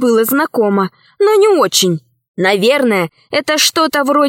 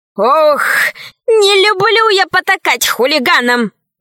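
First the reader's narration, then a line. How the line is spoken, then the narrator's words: Sighing. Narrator (Russian): вздохнула милая Мила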